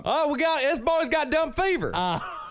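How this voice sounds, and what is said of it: Put-on Texas accent. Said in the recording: “So where do they talk like where you're from?... It's slightly dumber than your accent... I'm not offending the state of Texas.”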